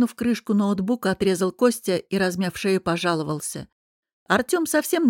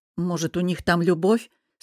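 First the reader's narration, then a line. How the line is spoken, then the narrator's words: Embarrassed snort, grumbling. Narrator (Russian): фыркнула я и, чувствуя, как краснею, заворчала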